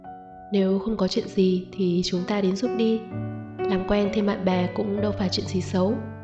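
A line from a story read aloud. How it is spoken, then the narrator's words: Smiling. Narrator (Vietnamese): Hà Thích mỉm cười bảo Viên Hỉ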